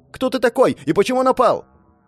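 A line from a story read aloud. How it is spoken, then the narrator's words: Angry shouted reply. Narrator (Russian): мужчина с искаженным от гнева лицом прокричал в ответ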